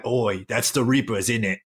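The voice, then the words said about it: Exaggerated put-on Cockney accent. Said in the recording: “like just something like super cockneyed”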